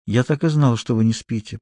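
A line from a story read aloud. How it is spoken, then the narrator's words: Very close whisper. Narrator (Russian): прошептала так близко от меня, что дыхание наше смешалось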